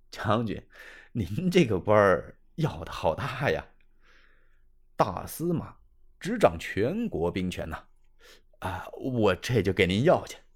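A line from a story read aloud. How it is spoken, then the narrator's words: Laughing. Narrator (Chinese): 张子刚一笑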